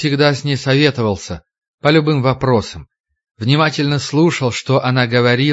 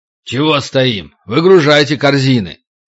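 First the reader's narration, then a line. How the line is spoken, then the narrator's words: Harsh bark. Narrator (Russian): Дима рявкнул на мужиков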